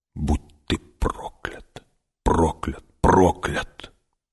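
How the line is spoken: Whisper. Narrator (Russian): прошептала

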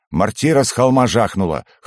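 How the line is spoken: Chuckling. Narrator (Russian): хохотнул Перец

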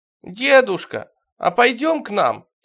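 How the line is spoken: Joyful suggestion. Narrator (Russian): радостно предложил Стримглав

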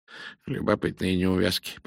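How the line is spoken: Muttering. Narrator (Russian): пробормотал Пуаро

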